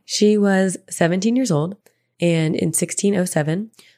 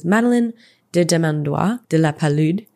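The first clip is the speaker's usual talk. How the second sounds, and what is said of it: Put-on French accent. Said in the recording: “I'm probably not saying that right, but I feel like it was nice to use my French accent.”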